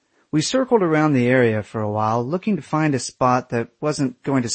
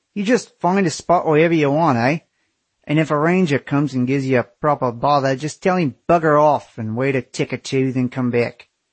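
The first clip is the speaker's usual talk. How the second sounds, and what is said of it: Very thick backwoods Australian accent. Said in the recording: “The guy had the thickest backwoods Australian accent I've ever heard.”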